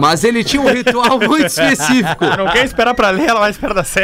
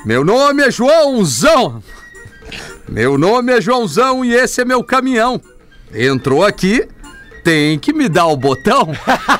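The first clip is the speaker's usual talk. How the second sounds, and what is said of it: Truck driver character voice. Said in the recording (Portuguese): “Eu vou fazer uma voz de caminhoneiro”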